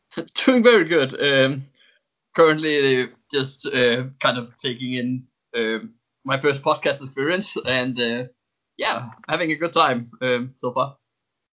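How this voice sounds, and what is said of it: Speaks with an accent. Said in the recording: “You definitely have the perfect accent to talk hockey”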